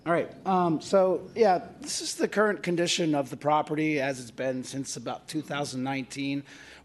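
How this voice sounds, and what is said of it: Hoarse, strained voice. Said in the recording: “Losing my voice today of all days.”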